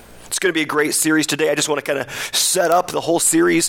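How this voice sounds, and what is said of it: Slightly creaky voice. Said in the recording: “You can probably hear my voice is a little creaky today”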